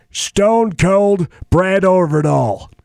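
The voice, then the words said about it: Stone Cold Steve Austin impression. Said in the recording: “do an impression... Stone Cold Steve Austin... My voice is a little out.”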